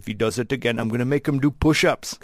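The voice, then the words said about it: Poor Arnold Schwarzenegger impression. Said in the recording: “That was the worst Arnold impression I've ever heard.”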